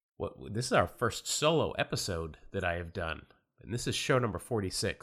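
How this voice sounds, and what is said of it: Voice affected by a cold. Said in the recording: “I am battling a cold ... apologize for my voice”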